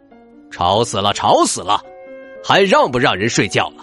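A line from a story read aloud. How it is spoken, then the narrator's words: Roaring lion. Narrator (Chinese): 狮子咆哮道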